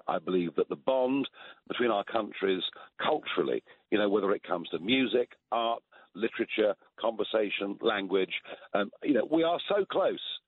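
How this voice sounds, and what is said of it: British accent. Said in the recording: “people talk about my British accent”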